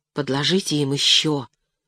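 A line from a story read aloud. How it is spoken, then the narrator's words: Whispered plea. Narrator (Russian): шепотом просила Леночка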